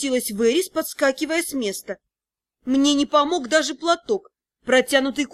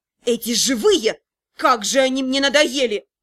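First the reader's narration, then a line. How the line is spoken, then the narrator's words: Suddenly angry spirit voice. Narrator (Russian): неожиданно злым голосом проговорил возрожденный дух смерти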